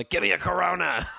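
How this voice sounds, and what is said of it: Different off-duty clown character voice. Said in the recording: “did a different voice? ... Off the clock clown ... talked like that.”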